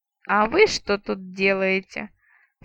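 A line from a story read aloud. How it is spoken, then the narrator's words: Menacing rumbling voice. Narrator (Russian): Страшным голосом пророкотала я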